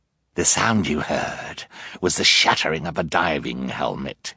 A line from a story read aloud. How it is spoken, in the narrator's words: he sneered